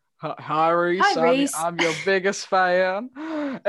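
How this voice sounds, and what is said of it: Impression with Southern American accent. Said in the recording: “my George Ezra impression ... why has George Ezra come from the south of America?”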